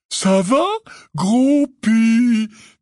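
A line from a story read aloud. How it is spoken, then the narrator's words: Falsely cheerful voice. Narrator (French): dit Hagrid d'une voix faussement joyeuse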